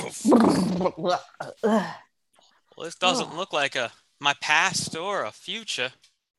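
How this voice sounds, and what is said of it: Put-on Southern American accent. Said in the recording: “you suddenly have a southern accent.”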